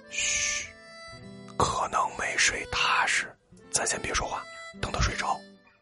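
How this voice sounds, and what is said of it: Hushed, quiet whispering voice. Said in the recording (Chinese): “朋友小声对我们说”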